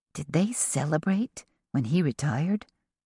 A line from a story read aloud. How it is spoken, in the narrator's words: Joss whispered to Tess